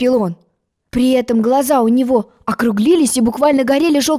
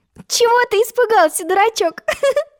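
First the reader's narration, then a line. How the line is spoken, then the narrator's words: Laughing. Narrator (Russian): засмеялась Алиса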